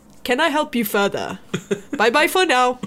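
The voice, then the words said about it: Funny accented character voice. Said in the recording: “he talked in a funny accent.”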